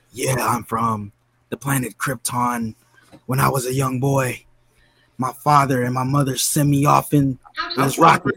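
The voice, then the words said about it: Nicolas Cage impression. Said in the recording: “That's Nicolas Cage ... I thought it was Robert De Niro for a second ... He got more of an Italian New Yorker.”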